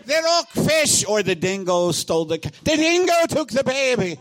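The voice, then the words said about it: Terrible put-on Australian accent. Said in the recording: “Is that an Australian accent? ... Terrible Australian accent. Of a dingo!”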